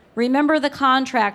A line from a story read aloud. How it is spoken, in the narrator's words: her mother shouted